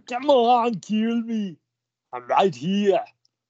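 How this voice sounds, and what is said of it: Imitates another person's voice, New Zealand-sounding. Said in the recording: “I don't think any Arnold Schwarzenegger impersonation actually sounds like him ... It sounds like I'm from New Zealand”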